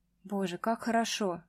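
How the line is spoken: Soft spoken aloud. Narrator (Russian): сказала тихонько вслух

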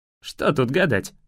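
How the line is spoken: Wry snort. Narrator (Russian): хмыкнул

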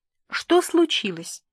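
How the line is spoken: Calm question. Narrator (Russian): спокойно поинтересовалась

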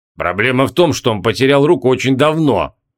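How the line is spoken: Grumbling. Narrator (Russian): проворчал Криол

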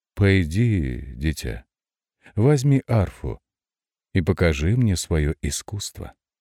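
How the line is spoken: Gentle, affectionate. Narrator (Russian): Денель ласково сказал

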